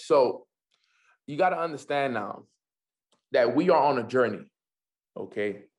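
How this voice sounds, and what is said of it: Noticeable accent. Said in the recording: “Sorry if it's my accent.”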